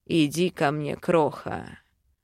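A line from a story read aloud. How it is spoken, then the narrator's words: Growled. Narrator (Russian): рыкнул Вел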